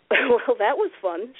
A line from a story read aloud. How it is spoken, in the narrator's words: giggled